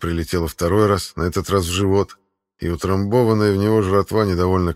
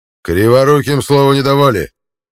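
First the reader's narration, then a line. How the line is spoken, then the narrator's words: Barking shout. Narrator (Russian): гаркнул Равуда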